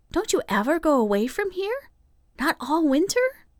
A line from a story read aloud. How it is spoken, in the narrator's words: Nan asked wistfully